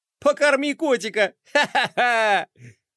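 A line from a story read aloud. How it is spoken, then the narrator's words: Laughing to tears. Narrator (Russian): Флай смеялся до слез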